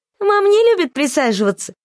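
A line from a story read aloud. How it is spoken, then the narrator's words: Giggling young girl. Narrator (Russian): хихикнула самая младшая из детей, девочка лет 6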